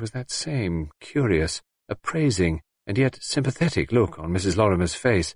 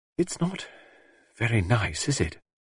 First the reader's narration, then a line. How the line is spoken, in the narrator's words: Anne murmured